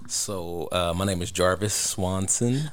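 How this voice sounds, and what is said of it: Put-on sexy voice. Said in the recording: “what voice is that? ... That's a sexy voice ... This is my backup ... that's his sexy voice”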